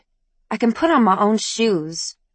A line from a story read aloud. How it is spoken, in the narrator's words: Ivy snapped